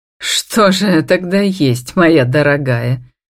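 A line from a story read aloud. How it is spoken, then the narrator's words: Mocking mother-in-law. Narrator (Russian): насмешливо спрашивает свекровь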